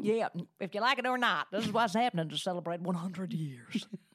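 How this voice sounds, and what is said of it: Playful put-on accent. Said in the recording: “We just do that accent forever just to listen to ourselves do it.”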